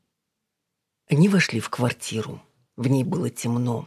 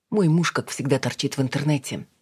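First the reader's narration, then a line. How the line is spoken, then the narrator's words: Plain. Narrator (Russian): сказала Алина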